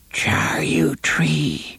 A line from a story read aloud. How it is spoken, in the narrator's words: Cordelia whispered